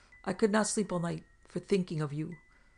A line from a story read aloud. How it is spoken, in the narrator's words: exclaimed Black Burton on seeing them